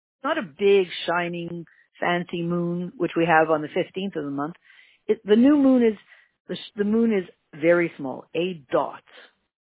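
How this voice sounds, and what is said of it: Canadian accent. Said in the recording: “You can tell from my saying of dot that I have a Canadian accent.”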